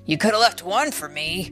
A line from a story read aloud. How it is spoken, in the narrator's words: Hawkeye grumbled